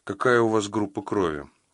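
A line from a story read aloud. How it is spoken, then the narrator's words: Cold inquiry. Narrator (Russian): холодно поинтересовалась она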